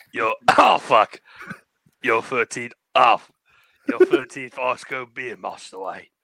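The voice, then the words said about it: Michael Caine impression. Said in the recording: “my Michael Caine impression ... Give me Michael Caine giving me ice cold beer”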